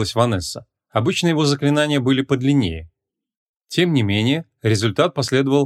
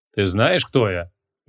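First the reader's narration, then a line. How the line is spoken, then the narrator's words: Menacing. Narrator (Russian): грозно спросил его маг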